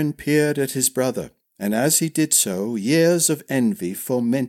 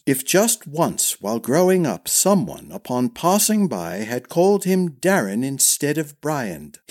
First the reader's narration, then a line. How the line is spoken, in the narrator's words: he sneered